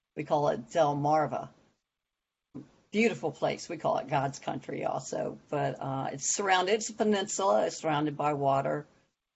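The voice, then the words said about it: American East Coast accent. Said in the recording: “as you can tell by my voice, I am from the U.S., and I live on the eastern shore of Maryland, Delaware, and Virginia”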